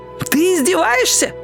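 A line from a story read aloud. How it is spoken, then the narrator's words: Shouting. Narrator (Russian): закричал Растяпа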